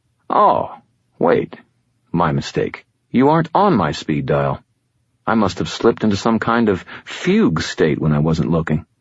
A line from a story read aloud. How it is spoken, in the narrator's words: gravely said